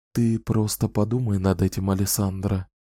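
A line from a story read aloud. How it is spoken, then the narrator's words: Quiet speech. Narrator (Russian): тихонько сказала она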